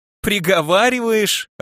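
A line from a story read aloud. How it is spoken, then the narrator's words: Laughing interruption. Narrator (Russian): рассмеялся Нарталим, перебивая меня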